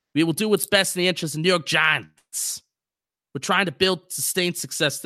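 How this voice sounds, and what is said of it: Bad imitation Boston accent, Dave Gettleman. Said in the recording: “Dave Gettleman's fake Boston accent ... This is a terrible accent ... That is the worst Boston accent I've ever heard.”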